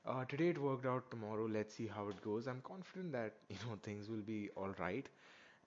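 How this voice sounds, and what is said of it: Slow, quiet, sore-throated voice. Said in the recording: “why I'm a little bit slower today, why my voice is not as loud, it's because my throat is feeling a little bit sore”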